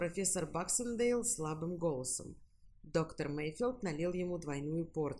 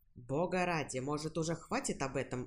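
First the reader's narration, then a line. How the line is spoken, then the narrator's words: Irritable snap. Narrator (Russian): огрызнулся доктор Мейфилд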